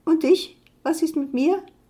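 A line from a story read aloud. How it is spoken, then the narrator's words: Thin high squeak. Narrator (German): piepste eine feine Stimme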